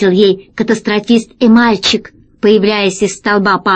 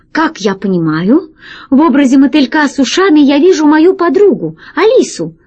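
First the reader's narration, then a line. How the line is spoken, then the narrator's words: Exclaiming. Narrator (Russian): воскликнул катастрофист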